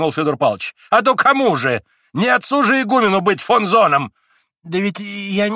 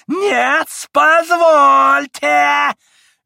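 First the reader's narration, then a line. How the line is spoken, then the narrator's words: Shrill interruption. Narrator (Russian): визгливо перебил Федор Павлович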